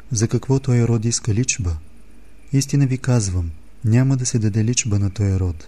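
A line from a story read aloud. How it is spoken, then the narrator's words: Deep sigh. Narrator (Bulgarian): въздъхна дълбоко и рече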